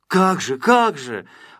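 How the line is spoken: Exclamation. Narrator (Russian): воскликнул Колосок

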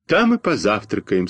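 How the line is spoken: Sad. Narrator (Russian): сказал грустно Костя Малинин

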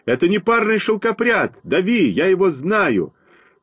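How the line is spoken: Shout. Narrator (Russian): крикнул

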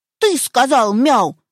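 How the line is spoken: Stern question. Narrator (Russian): строго спросил его щенок

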